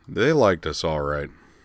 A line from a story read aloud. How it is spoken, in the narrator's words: Moose McEachern observed dryly